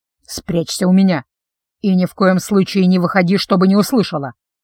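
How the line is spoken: Quiet. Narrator (Russian): тихо проговорил он

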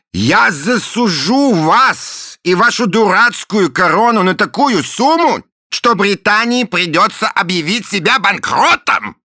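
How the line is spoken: Shouted, man. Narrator (Russian): крикнул мистер Буль

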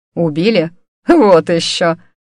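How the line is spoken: Quiet laugh. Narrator (Russian): Госпожа Гарф тихо рассмеялась

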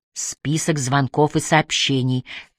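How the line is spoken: Mysterious whisper. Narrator (Russian): таинственно прошептал усердный помощник

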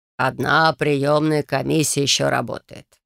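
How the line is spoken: Healer's thoughtful drawl. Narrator (Russian): задумчиво протянул целитель

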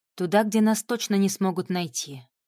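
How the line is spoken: Plain. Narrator (Russian): ответила Вика

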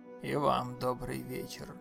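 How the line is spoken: Muffled deep bass. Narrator (Russian): глухо пробасил полицейский

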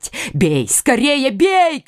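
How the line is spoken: King shouting. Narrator (Russian): кричал король Наварский

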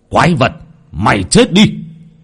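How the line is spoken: Roaring. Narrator (Vietnamese): Lão Nhiên gầm lên

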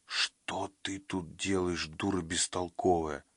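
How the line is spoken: Whispered. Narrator (Russian): прошептал Манни

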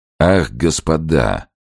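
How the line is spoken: Dull slightly lisping interruption. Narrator (Russian): своим матовым, чуть шепелявым голосом перебил Подтягин

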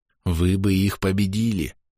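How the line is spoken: Inner whisper. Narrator (Russian): внутри шепнул

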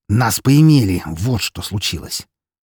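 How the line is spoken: Growled, suppressed anger. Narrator (Russian): С трудом сдерживая злость, прорычал я

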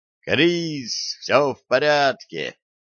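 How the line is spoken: Joyful shout. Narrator (Russian): радостно закричал он

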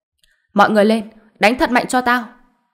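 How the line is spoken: Loud, pained, furious shout. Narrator (Vietnamese): tay của y biến thành vô cùng đau đớn, do đó trong lòng vô cùng giận Hàn Đông, hét lớn một tiếng

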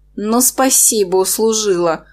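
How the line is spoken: Inner groan. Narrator (Russian): мысленно простонала я

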